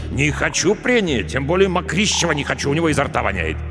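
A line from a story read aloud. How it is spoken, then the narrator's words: Curt and angry. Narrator (Russian): отрезал Рафаэль Каримович, притом довольно зло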